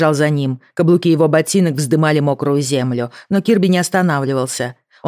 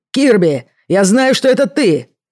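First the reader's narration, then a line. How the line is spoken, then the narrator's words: Shouting. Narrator (Russian): закричал он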